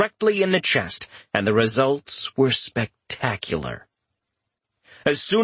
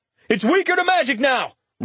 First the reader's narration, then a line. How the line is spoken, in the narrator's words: Richter shouted